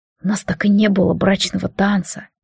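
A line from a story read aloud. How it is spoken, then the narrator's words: Whisper. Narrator (Russian): прошептал Алистар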